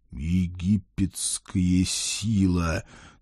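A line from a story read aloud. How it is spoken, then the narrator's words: Weary, mournful exhale. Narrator (Russian): тоскливо выдохнул я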